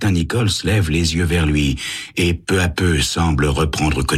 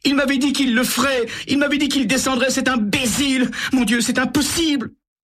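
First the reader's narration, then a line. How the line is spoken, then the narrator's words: Sobbing. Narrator (French): Elle éclate en sanglots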